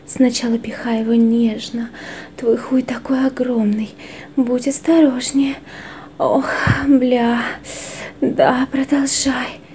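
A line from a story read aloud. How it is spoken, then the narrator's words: Moaning. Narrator (Russian): стонала она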